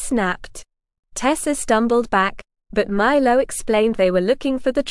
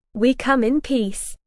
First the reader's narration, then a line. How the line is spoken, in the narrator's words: he said